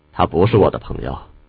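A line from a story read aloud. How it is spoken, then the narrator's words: Flat, indifferent. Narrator (Chinese): 铁恨淡淡道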